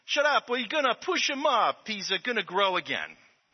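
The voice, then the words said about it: Put-on Italian accent. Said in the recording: “I'm pretty good at Italian accents because I grew up with a lot of Italians in New Jersey.”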